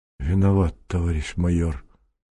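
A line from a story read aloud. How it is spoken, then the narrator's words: Very quiet. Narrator (Russian): Дежков говорил очень тихо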